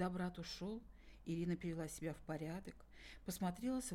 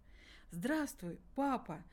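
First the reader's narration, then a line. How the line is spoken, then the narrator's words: Forced cheerful speech. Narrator (Russian): нарочито весело проговорила Ирина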